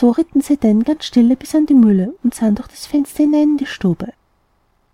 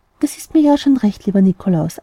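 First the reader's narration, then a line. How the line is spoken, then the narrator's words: Plain. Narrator (German): antwortete das Christkind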